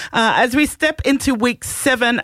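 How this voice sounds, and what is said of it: New Zealand accent. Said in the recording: “What was with the Kiwi accent just then?”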